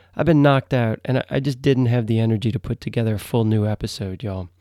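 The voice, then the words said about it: Sick, flu-affected voice. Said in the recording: “you can probably hear it in my voice ... I've been battling the flu”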